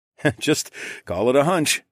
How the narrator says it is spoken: chuckled

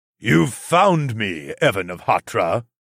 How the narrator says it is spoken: the Demon King's booming voice asked

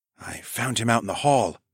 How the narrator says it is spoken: I whispered

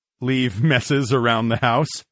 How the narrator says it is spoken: I chuckled

